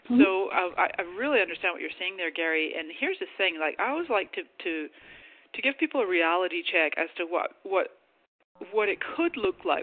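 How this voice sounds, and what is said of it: Scottish-Canadian accent. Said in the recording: “I didn't explain my accent, but I am Scottish and Canadian”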